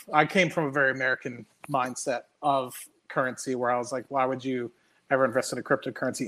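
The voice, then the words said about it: American accent. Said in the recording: “because i was american because of my accent”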